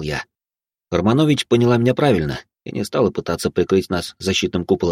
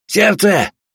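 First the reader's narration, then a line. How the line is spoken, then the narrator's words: Shout. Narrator (Russian): крикнул я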